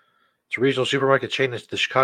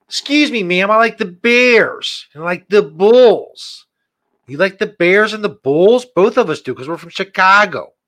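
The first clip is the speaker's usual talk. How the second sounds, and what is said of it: Put-on Chicago accent. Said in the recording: “that guy's attempt at a Chicago accent?”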